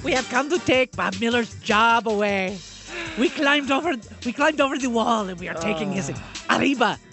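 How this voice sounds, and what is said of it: Exaggerated mock Mexican accent. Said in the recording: “incredibly racist Mexican accent”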